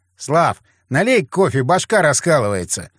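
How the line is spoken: Shouted. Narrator (Russian): Я крикнул

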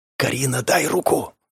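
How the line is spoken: Whispered. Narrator (Russian): прошептал

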